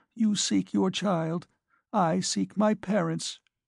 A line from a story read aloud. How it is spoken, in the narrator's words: she faltered